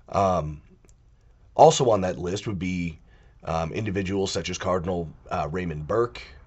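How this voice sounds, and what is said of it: Weird-sounding, congested sick voice. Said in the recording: “if my voice sounds really weird, it's because I'm actually sick. I have a cold”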